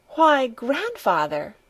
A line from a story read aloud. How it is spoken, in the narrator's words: she exclaimed